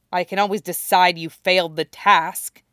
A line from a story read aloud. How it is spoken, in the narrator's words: Callie snarled